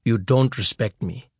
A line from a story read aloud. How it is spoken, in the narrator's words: he said softly